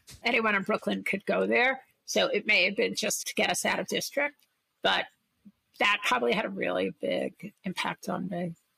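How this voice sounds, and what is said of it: Brooklyn accent. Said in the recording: “I'm from Brooklyn, if you can't tell from my accent”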